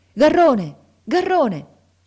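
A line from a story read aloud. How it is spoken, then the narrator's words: Shouting. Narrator (Italian): lo sentimmo gridare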